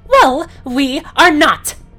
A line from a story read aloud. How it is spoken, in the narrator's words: yelled